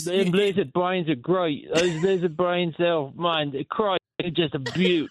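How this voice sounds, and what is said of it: Zombie voice with Australian accent. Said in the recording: “Zombie Australian ... Australian Zombie”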